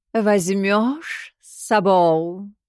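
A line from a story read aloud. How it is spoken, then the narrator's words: Drawled. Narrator (Russian): протянул появившийся у ног Шугин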